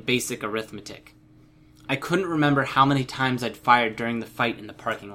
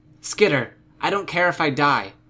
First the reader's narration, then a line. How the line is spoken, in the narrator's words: Panacea called out